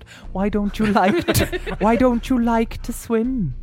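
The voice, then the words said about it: Imitates other speaker's accent. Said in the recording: “Oh, I'm taking on your accent.”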